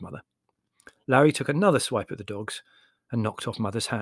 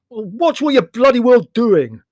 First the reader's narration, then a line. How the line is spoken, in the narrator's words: said Leslie loudly and belligerently